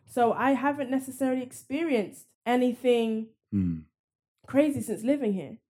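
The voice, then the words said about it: Foreign-born speaker's accent. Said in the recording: “I was born in another country and my accent's different”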